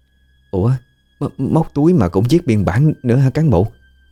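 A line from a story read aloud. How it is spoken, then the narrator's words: Trembling question. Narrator (Vietnamese): Cô Dung thì vẫn chưa hết run rẩy mà hỏi lại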